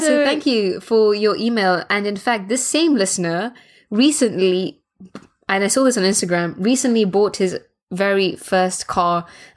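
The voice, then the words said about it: British accent. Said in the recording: “I think it's the accent that people like. ... Everybody's attracted to a British accent”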